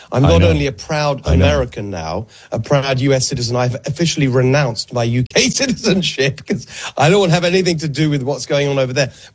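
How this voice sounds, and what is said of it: English accent. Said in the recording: “England's a total disaster. I still have the accent”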